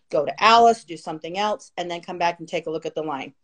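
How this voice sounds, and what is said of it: Very fast speech. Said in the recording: “sorry I'm talking so fast.”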